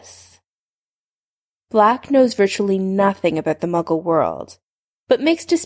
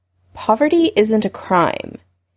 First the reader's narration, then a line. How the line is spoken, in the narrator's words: Harry said, probably more sharply than he needed to